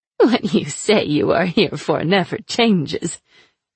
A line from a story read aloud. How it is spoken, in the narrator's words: she laughed